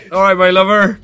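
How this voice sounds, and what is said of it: Put-on West Country accent. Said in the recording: “What's that accent? ... It's I think it's West Country. I don't know why I'm doing it.”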